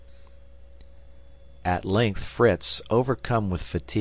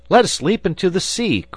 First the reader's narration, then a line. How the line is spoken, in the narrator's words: cried Fritz